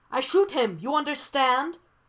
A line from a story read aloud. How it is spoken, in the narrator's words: the man yells